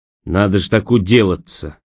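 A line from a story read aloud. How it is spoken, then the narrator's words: Dejected, sinking voice. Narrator (Russian): упавшим голосом проговорил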